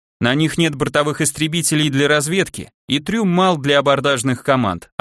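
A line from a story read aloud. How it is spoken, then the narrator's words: Plain. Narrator (Russian): ответил я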